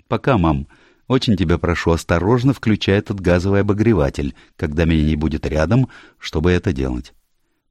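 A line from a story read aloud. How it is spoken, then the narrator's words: Cheerful. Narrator (Russian): весело сказала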